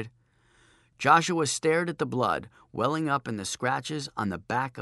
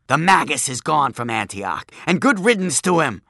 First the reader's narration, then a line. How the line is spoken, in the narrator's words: screeched the crone